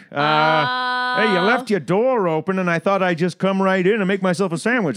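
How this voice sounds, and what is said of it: Goofy imitated character voice. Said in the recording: “his is like kind of higher up here ... I just do that goofy voice”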